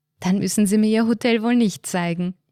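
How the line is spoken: Laughing. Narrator (German): sie lachte

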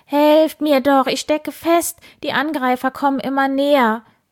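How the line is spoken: Screaming. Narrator (German): Wildi schrie

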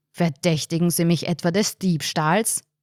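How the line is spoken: Thundering, booming voice. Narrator (German): donnerte der Bestatter

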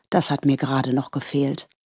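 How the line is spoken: Murmured. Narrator (German): murmelte er

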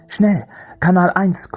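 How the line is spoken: Breathless panting. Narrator (German): keuchte

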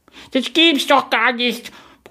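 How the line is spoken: Roaring. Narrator (German): brüllte

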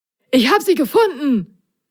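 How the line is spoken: Excited call. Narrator (German): rief Prop aufgeregt

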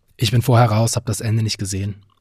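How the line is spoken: Plain. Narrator (German): antwortete Vincheck

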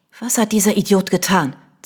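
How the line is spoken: Hissed. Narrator (German): zischte Vanessa

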